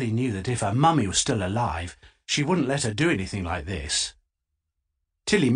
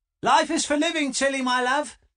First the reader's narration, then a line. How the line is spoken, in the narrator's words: shouted her dad